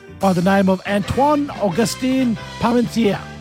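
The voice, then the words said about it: French accent on a name. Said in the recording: “a French pharmacist ... That's the last time I'm going to try and do it with the accent.”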